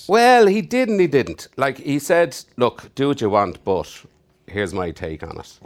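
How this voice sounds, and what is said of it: Irish accent. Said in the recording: “If you don't recognize the accent, I'm Irish.”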